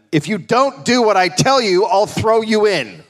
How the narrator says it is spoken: Hume yelled at him

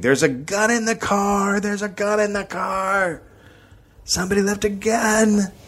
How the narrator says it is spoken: just started screaming

